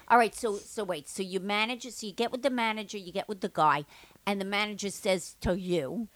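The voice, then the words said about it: Jewish Long Island accent. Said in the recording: “this accent like the nanny ... a real Jewish like yeah. Long Island accent.”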